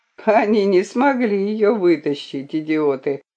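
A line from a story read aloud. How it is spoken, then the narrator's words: Scoffing snort. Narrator (Russian): хмыкнул он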